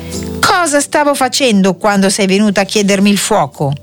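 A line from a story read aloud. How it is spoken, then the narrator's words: Ogre shouting. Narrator (Italian): l'orco che, come al solito, gridò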